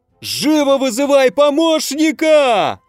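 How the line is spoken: Shrill shriek. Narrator (Russian): взвизгнул старший дознаватель

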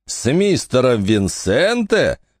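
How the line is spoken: Amused laughing question. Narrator (Russian): Женщина засмеялась от нелепости его пожелания

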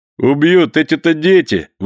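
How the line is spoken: Valet's laughing exclamation. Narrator (Russian): воскликнул, смеясь, камердинер

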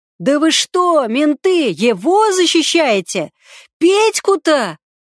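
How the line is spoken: Yelling. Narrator (Russian): орал Касторов-старший

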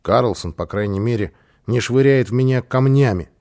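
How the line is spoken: Child grumbling. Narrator (Russian): проворчал малыш

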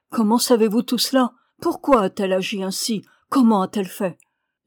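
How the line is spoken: Exclaimed. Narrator (French): s'écria le reporter

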